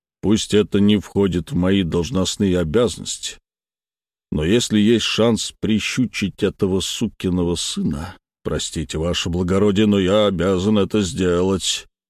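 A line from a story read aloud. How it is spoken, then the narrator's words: Meek low drone. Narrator (Russian): смиренно прогудел Снегов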